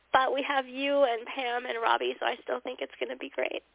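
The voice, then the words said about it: Congested, sick-sounding voice. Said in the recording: “today I'm a little feverish and the mucus monster. So I'm probably not going to be as talkative tonight, as you can hear in my voice”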